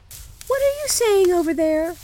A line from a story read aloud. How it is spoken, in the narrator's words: cried Gerda